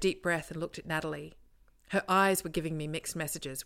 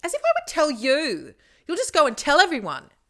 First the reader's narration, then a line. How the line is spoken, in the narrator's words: I screeched